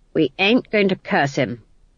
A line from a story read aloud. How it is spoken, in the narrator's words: said Granny